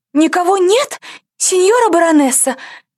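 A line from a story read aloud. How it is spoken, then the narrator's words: Frightened squeal. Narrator (Russian): взвизгнула служанка, уцепившись от страха за юбку хозяйки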